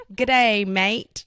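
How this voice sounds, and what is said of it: Weak attempt at Australian accent. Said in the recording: “do your best Aussie accent ... I am so bad at accents.”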